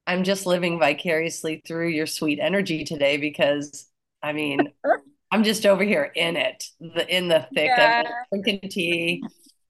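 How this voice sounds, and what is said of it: Low, rough sick voice. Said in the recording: “I have COVID ... my voice is even lower than usual ... probably like a crunchy peanut butter”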